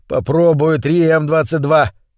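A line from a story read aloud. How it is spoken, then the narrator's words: Roar over static. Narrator (Russian): проревел сквозь нарастающие разряды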